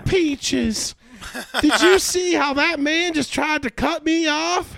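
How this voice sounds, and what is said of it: Exaggerated Southern Belle Georgia accent. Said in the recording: “like thick Georgia Dwang. Accent, like you know what I mean, like Southern Belle almost”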